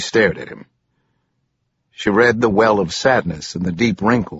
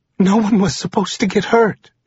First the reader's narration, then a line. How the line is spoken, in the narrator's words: choked out